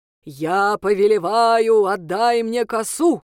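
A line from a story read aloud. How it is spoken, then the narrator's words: Thundering voice. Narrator (Russian): прогремела она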